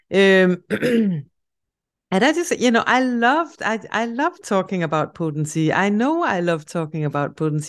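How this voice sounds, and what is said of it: Danish-accented English. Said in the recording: “a Danish project ... where my accent is coming from”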